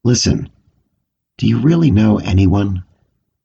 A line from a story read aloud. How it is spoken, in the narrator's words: The meat replied calmly